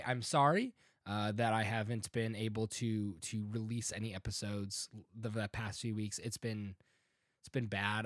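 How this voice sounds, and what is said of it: Sounds a little ill. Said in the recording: “if I sound a little ill. I am. I'm recovering from a cold.”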